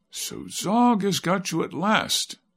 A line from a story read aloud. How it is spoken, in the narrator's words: said in a pitying tone